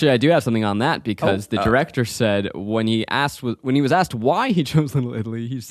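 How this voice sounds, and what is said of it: Usual voice. Nothing is said of it.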